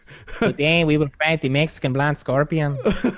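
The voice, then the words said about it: Put-on Hispanic accent. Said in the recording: “you'd have to do a Hispanic accent for that one”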